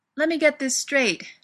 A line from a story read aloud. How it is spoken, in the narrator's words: she shouts